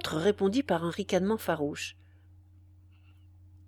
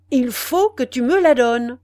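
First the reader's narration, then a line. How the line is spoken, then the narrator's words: Thundering voice. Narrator (French): répéta le jeune homme d'une voix tonnante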